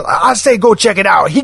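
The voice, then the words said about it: Put-on Cajun accent. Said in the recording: “you do a better Cajun voice than I do”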